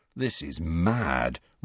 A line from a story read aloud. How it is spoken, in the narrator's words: Ron murmured